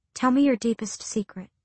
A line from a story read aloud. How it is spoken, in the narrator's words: she said softly